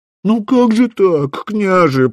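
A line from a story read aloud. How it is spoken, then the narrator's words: Whine. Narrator (Russian): проскулил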